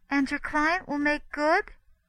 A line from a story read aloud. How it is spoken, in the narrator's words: she asked anxiously